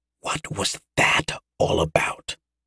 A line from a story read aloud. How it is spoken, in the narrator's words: Yosef whispered to Mara